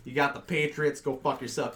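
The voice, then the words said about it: Put-on Boston accent. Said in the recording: “I'm talking in the accent right now because this is the Boston topic.”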